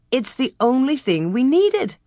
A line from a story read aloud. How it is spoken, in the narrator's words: Ma exclaimed